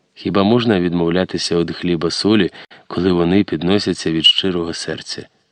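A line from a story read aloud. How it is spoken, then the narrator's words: Soft quiet speech. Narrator (Ukrainian): усміхнулася, схиливши на бік свою красиву голову, і тихо проказала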